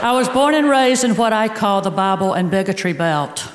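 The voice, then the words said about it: Southern American accent. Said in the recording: “my Southern accent.”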